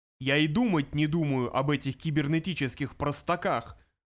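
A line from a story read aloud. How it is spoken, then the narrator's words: Roared. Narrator (Russian): взревел он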